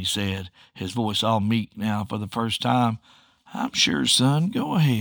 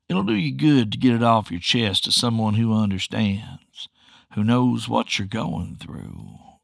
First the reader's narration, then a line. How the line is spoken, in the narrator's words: I purred